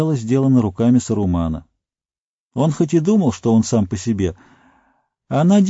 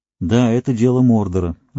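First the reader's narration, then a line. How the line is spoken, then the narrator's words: Sighed. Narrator (Russian): вздохнул Фродо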